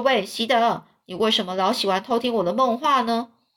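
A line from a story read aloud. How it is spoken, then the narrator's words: Plain. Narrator (Chinese): 这席德说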